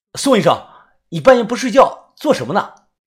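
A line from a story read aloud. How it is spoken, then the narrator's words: Wary shout. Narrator (Chinese): 我警惕的喊道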